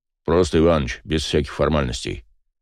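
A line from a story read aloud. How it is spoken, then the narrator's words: Man grumbling. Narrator (Russian): проворчал мужчина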